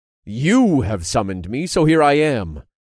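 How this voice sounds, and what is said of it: Commanding, grand godlike voice. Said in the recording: “I commanded in my most godly voice”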